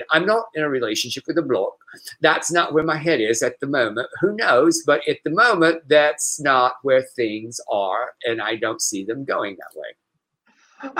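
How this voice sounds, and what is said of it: Put-on British old lady accent. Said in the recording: “a little bit like a little British little old lady ... my British accent”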